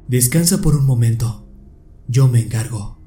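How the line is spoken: Stranger, calm tone. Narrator (Spanish): el desconocido me dijo con tono sereno

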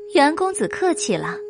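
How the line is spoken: Smiling. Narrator (Chinese): 女子也就笑着，嘴里却道

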